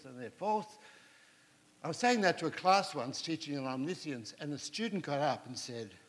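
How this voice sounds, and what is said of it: Distinctive, well-liked accent. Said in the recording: “we love your accent ... I think it's one of the most trusted accents in the world”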